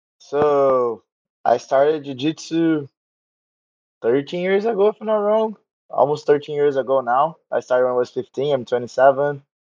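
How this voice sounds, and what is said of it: Brazilian Portuguese accent. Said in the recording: “I'm from Rio, from Brazil. You can see by the accent, my Portuguese accent.”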